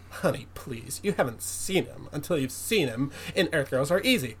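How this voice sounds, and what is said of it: Imitates another person's voice. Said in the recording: “It's not a very good Alex impression, I'm sorry.”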